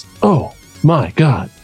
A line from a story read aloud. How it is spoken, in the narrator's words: said, in a rather flat voice